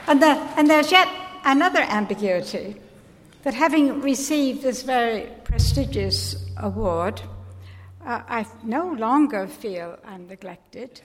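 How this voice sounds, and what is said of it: American accent with English tinge. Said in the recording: “You can probably hear the English in Anne Stevenson's accent. She was born to American parents in England.”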